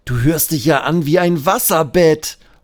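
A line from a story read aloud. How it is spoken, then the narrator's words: Laughing call. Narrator (German): ruft Benjamin lachend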